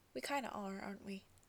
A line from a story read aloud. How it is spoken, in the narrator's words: Jensen chuckles softly